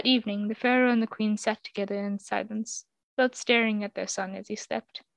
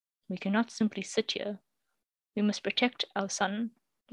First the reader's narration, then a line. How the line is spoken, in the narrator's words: he said, softly but firmly